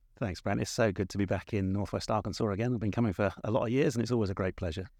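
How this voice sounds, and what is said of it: Southern English accent. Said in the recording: “from the accent, we can tell you're not from Arkansas ... I'm from the south, but it's the south of England”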